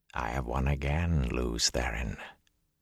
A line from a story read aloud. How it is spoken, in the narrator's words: a voice whispered inside his head